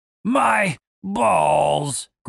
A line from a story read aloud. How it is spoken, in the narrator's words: groaned Dave